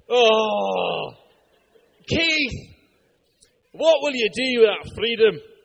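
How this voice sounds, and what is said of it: Put-on thick Scottish accent. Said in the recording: “in a thick Scottish accent ... That was not a bad Scottish accent ... It was a rubbish attempt”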